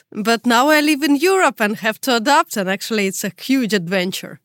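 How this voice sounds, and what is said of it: Strong Russian accent. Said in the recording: “I'm from Russia, you could already tell that by my tough accent”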